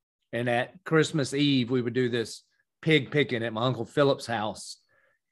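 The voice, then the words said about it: Southern US accent. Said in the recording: “you can hear from my accent. I am from the South.”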